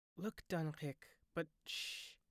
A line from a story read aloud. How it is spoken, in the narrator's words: breathed Gugu